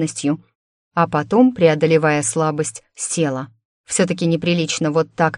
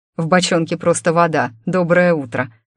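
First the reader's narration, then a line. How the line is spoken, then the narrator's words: Chuckling. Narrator (Russian): хохотнул Иван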